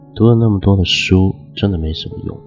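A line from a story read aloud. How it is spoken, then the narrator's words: Sighing lament. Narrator (Chinese): 他还一个劲的摇头感叹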